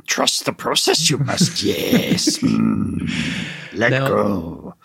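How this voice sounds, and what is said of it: Playful impression of a character voice. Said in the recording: “it's my third impression ... It's third impression today. It's amazing.”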